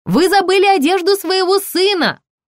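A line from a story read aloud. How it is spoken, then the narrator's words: Yelling woman. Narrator (Russian): заорала продавщица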